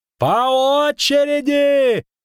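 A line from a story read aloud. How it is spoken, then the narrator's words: Bandaged man yelling. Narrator (Russian): орал перевязанный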